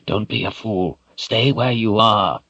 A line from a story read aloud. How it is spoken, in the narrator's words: Zed cautioned in a low voice